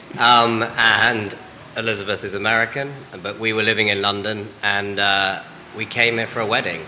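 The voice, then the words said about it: English accent. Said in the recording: “I'm English, which you might tell from my accent. I still haven't lost it, I don't think.”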